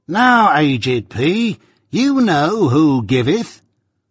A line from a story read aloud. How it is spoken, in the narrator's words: the bridegroom cried out in his accustomed voice